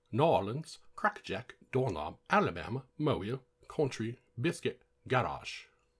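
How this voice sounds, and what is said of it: Bad put-on English accent. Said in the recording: “That was my shitty English accent.”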